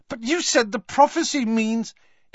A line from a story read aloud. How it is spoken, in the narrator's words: spluttered Harry